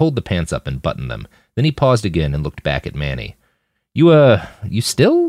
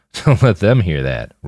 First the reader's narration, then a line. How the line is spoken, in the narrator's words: Roland laughed